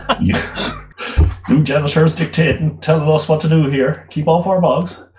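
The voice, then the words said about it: Put-on American accent. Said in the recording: “Don't know why I'm doing that in an American accent.”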